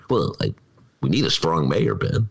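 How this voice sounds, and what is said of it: Generic Chicago voice impression. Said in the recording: “who was that an impression of? You know, the mayor. ... It's just general. ... Chicago.”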